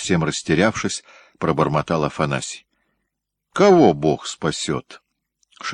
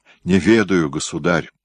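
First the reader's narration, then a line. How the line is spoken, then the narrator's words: Tearful moan. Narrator (Russian): со слезами на глазах простонал Ногой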